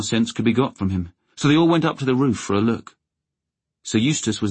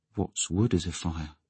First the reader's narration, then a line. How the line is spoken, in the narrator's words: he said in a hushed voice